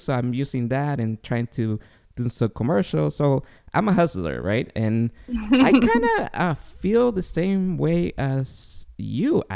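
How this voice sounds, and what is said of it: Noticeable accent, unusual voice. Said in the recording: “as you could hear, I have not only an accent, but a weird voice.”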